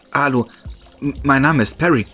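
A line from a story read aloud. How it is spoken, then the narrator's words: Stammering. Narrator (German): stammelte ich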